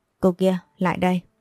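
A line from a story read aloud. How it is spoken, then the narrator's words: Ringing voice. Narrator (Vietnamese): có tiếng nói vang lên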